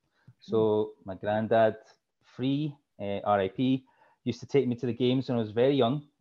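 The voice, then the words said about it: Strong thick Glasgow Scottish accent. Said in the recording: “the Michigan thick accent. It's very strong. ... the thick accent's from Glasgow. So Glasgow, Scotland, my hometown.”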